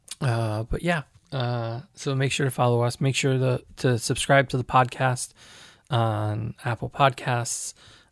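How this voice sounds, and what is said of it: Hoarse, congested voice from cold. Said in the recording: “Excuse my voice. I'm getting over a little bit of a cold.”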